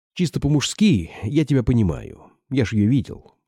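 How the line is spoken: Plain. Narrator (Russian): сказал Чугунцов

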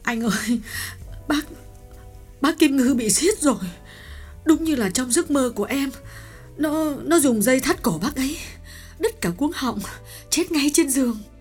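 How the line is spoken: Tearful whimpering reply. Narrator (Vietnamese): Hạ mếu máo đáp

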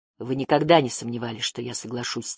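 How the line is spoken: Quiet. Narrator (Russian): тихо сказал он

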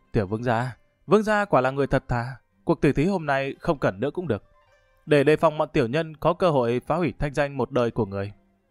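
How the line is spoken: Sighing. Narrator (Vietnamese): bất giác thở dài

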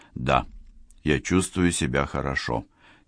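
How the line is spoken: Quiet, fearful. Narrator (Russian): тихо ответил Райм, охваченный иррациональным страхом

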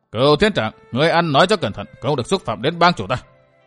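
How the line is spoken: Indignant shout. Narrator (Vietnamese): Thấy bang chủ bị sỉ nhục, Lý Sĩ Hùng quát

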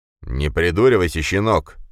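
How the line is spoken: Angry growl. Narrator (Russian): прорычал Пегасов

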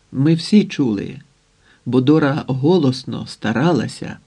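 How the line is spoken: Plain. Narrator (Ukrainian): сказала Міла

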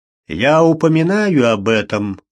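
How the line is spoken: Rumbled. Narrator (Russian): прогудел доктор Фелл

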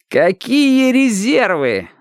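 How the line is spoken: Yelling. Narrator (Russian): орал Яшка

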